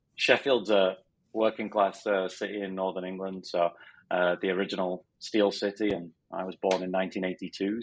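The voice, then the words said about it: Northern English Sheffield accent. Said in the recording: “I'm from Sheffield in Northern England. So I still have the strange accent despite being in Philadelphia for 7 years and Arizona for 11 or 12.”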